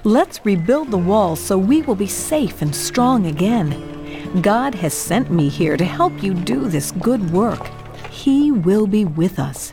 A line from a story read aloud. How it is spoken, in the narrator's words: said Nehemiah